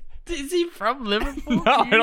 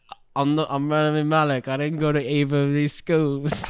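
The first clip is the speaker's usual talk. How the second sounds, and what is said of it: Put-on Liverpool accent. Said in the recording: “you used a Liverpool accent”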